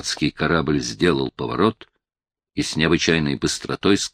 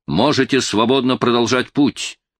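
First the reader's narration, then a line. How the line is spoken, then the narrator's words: Shouted. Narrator (Russian): она крикнула нам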